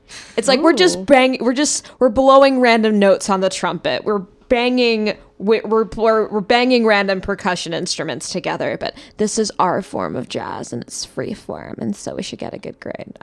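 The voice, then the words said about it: Valley Girl voice. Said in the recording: “this Valley Girl voice”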